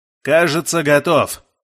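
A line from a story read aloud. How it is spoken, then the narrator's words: Loud shout, shell-shocked. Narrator (Russian): как глухой прокричал контуженный милиционер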